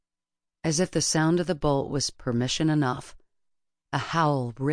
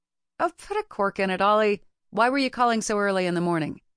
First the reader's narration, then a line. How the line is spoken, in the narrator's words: He snorted